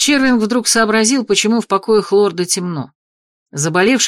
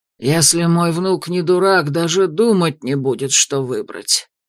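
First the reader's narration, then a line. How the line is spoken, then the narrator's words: Gruff mutter. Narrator (Russian): буркнул Дарвик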